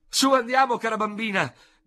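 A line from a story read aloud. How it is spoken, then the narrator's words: Shouted. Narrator (Italian): gridò dalla porta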